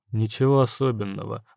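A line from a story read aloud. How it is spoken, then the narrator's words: Master muttering. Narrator (Russian): буркнул мастер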